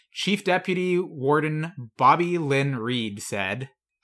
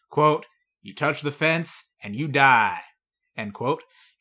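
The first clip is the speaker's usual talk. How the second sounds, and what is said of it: Impression of prison deputy warden. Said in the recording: “I think I did a pretty good impression.”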